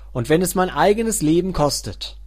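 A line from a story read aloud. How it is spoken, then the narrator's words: Calling out. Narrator (German): rief sie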